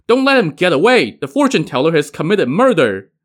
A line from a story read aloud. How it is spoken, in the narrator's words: all the stunned onlookers shouted